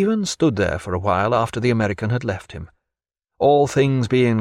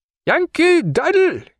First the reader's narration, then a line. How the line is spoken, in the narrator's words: he cried, and laughed aloud